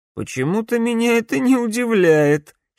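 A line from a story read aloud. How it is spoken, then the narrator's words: Giggling. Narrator (Russian): хихикнул Алекс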